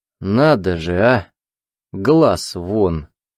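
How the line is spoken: Hoarse amused laughter. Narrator (Russian): хрипло рассмеялся, будто сказал что-то очень смешное

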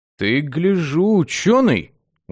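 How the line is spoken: Respectful drawl. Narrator (Russian): уважительно протянул парень

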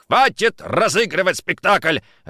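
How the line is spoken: Barking. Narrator (Russian): рявкнул он

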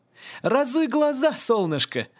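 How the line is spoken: Knowing laugh. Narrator (Russian): рассмеялся всезнающий Аесли

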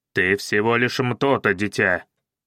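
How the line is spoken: Barked. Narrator (Russian): рявкнул Каинаги

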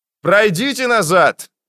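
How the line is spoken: Engineer shouting into phone. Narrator (Russian): закричал в телефон инженер

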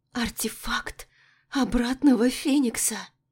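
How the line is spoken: Excited whisper. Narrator (Russian): Восторженно прошептала

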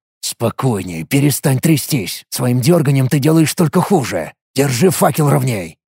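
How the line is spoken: Angry whisper. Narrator (Russian): Зло прошептал я

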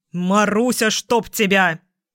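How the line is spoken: Barked. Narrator (Russian): рявкнул я

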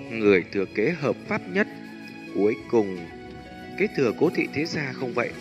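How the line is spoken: Smiling boast. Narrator (Vietnamese): Nhiếp Ly khóe miệng mỉm cười nói phét

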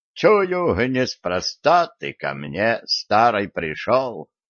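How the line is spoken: Dejected sigh. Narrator (Russian): Удрученно вздохнула яга

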